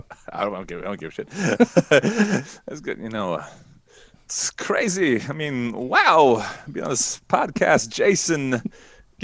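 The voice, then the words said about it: Christopher Walken impression. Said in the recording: “your Christopher Walken. Do you want to do your Christopher Walken for me”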